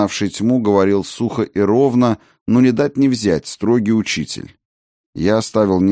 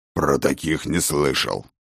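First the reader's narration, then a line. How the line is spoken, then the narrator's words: Growled. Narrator (Russian): рыкнул Ракот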